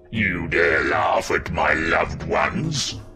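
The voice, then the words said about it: Supernaturally deep character voice. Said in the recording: “in a supernaturally deep voice.”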